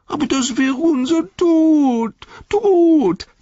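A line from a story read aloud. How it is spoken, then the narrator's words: Wailing. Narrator (German): jammerte Gollum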